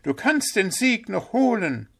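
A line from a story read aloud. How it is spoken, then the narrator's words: Calling out. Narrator (German): rief Pünktchen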